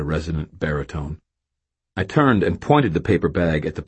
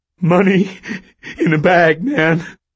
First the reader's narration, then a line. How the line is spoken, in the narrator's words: Stan panted